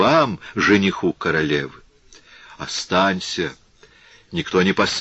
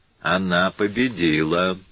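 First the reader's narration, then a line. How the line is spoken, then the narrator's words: Muttered. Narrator (Russian): Пробормотал патер Матео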